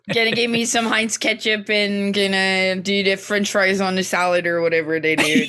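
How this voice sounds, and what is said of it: Attempted Pittsburgh accent. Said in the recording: “A lot of accent work on this episode... That is a lot of not Pittsburgh accent”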